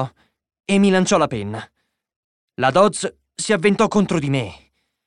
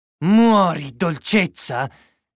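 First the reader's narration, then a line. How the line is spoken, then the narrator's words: Female growling. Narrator (Italian): ringhiò lei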